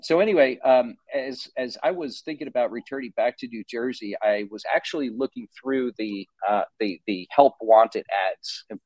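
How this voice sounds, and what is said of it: New Jersey accent. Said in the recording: “I grew up in New Jersey, in case you couldn't tell by the accent”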